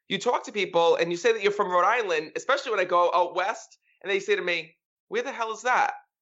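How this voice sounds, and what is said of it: Rhode Island accent, Boston-New York mix. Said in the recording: “Is that a Rhode Island accent? You have a New York accent, really? ... that's not a New York accent ... a little bit of the Boston mixed with the New York”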